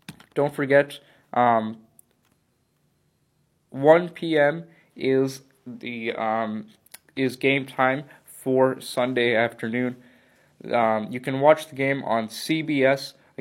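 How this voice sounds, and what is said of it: Hoarse, subdued voice. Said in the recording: “sorry about my voice. I don't sound as amped as I usually am ... your throat's not feeling great”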